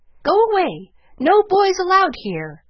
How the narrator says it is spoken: the parrot called out

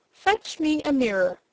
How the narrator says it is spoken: cried Princess Cerulea

